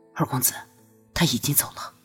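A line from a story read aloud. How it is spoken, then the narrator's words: Low voice. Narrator (Chinese): 朱思怀才低声道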